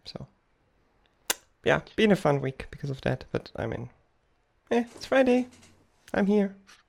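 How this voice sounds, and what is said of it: Sick, under-the-weather voice. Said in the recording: “My voice is still a little under the weather”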